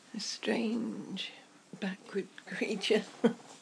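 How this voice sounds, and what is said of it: David Attenborough narration impression. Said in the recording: “my David Attenborough impression.”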